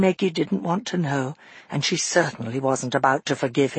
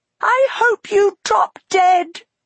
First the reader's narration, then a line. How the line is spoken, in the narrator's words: she screamed